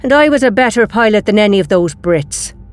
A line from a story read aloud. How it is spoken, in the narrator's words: Company growled